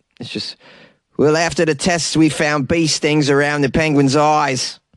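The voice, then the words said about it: Put-on South African accent. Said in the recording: “What's a South African accent?”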